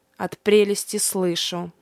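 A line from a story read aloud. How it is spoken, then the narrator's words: Displeased grumble. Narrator (Russian): недовольно буркнул Фафнир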